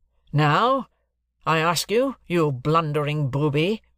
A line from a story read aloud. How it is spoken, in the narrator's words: said my guardian, very sternly